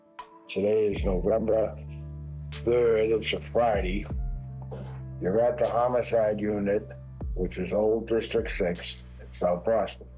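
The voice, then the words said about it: Thick Boston accent. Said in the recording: “thick Boston accent”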